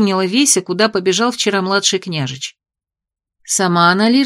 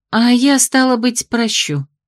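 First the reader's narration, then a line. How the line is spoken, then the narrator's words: Gloomy sigh. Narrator (Russian): хмуро вздохнула Веся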